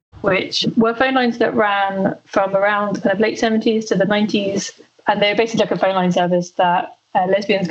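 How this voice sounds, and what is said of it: British accent. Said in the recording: “as you can probably tell from her accent, ... is in the UK, like me”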